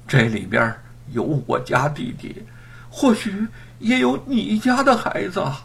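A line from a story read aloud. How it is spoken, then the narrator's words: Heavy sorrowful sigh. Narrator (Chinese): 店小二重重叹了口气儿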